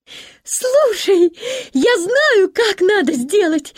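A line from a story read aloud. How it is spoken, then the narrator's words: Sudden cheerful shout. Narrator (Russian): весело закричала вдруг Гретель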